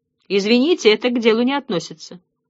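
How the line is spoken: Dry curt retort. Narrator (Russian): сухо отрезал Ратибор

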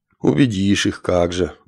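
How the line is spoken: Sighing. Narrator (Russian): вздохнул тринадцатый

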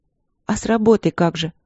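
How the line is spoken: Sad question. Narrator (Russian): грустно спросила Светлана

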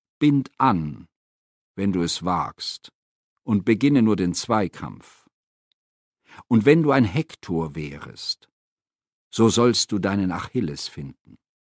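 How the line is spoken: Calm, smiling reply. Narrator (German): lächelte nur und erwiderte ganz ruhig

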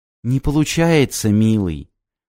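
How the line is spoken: Tender. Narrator (Russian): Ласково проговорила Джулия

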